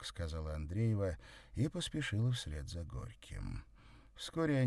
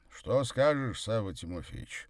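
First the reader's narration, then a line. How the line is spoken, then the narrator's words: Deep voice, slight tension. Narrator (Russian): с едва заметным напряжением в голосе пробасил Горький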